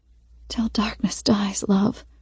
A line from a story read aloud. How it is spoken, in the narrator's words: she says, her voice faint